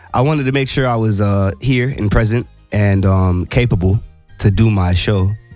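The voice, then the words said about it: Groggy just-woke-up voice. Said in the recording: “as you can probably hear in my voice, I just woke up like a little bit ago.”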